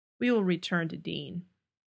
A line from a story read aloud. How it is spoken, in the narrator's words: Cass intones, calmly